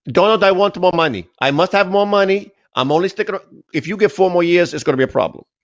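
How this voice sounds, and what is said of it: Poor put-on Slovenian accent. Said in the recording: “My Slovenian accent is horrible. Sounds like Colonel Klink, actually.”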